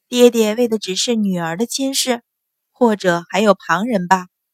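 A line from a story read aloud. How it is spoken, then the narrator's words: Faint smile, calm. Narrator (Chinese): 阮云欢淡淡一笑，说道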